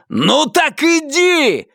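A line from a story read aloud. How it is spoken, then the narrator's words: Yelling. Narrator (Russian): заорал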